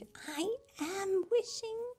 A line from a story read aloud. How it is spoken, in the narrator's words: Holly whispered